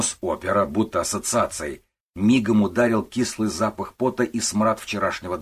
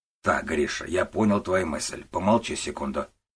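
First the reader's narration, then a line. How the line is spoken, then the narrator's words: Grumbling on phone. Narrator (Russian): буркнул Гуров в трубку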